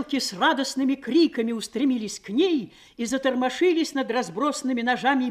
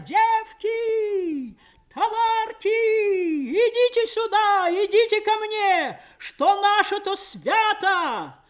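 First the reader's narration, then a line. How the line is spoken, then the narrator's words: Strange singsong joyful shout. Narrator (Russian): Мать неслыханно чужим голосом, поющим, но призывно радостным кричала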